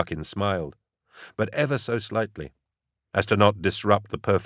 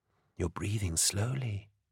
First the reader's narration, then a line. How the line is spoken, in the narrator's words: said the angel, a whisper in his ear